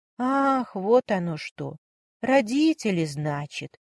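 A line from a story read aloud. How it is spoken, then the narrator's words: Drawn-out drawl. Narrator (Russian): протянула Варя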